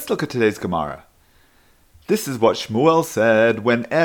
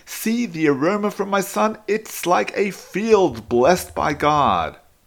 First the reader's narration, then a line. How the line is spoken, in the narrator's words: Yitzchak exclaims